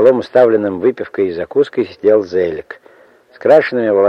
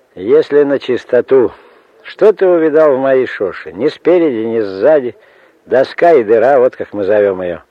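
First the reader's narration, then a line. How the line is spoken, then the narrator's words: Rough, curt, laughing. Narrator (Russian): хохотнул, спросил грубо и отрывисто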